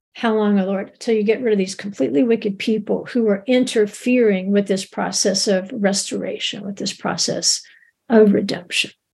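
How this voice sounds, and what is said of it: Strained, fading voice. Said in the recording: “losing my voice a little bit”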